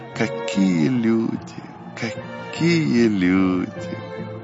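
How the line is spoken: Tearful grateful repetition. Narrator (Russian): Владыка сквозь слезы благодарности повторял

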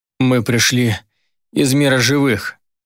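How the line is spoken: Strained rasp while struggling. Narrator (Russian): прохрипел я, пытаясь вырваться из ее железной хватки

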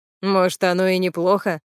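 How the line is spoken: Laughing. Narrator (Russian): засмеялся Глеб

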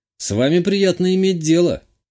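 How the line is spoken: Wry chuckle. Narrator (Russian): хмыкнул я

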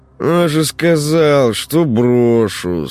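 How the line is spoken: Lazy drawl. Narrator (Russian): сынок протянул эти слова с некоторой линцой

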